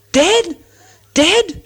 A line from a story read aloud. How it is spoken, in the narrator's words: shouted the dwarfs